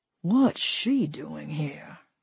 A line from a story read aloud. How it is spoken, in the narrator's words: muttered, mostly to himself